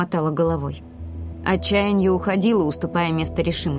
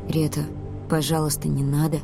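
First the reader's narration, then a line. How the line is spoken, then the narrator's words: Quiet. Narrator (Russian): тихо сказал Ди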